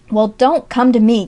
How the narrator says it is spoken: cried Jasper, beginning to pace the floor irritably

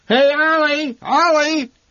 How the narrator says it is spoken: the old man shouted out of the side window toward the feed store

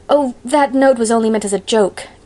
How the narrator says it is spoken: gasped Anne

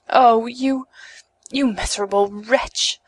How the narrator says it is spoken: she cried, hoarse with anger and despair

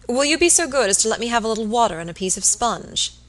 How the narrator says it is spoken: he said

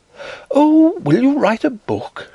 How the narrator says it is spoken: she cried

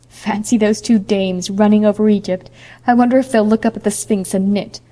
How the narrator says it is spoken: laughed Priscilla

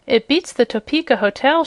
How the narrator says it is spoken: she cried, admiringly

